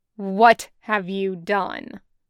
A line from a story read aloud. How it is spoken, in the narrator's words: Qui-Gon rumbled, thunderous